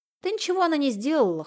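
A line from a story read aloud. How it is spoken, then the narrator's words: Scoffing. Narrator (Russian): хмыкнул Виктор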